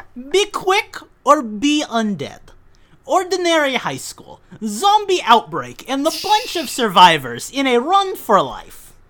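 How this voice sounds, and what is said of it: Put-on Russian accent. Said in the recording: “Russian ... Eastern European accent ... you're Gru”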